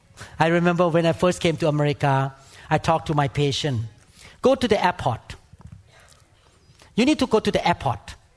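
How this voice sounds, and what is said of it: Non-native English accent. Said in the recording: “You see, I have accent. I'm not American born. So I say it wrong”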